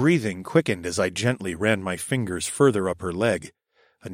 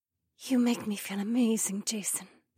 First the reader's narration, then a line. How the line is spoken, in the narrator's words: Becca whispered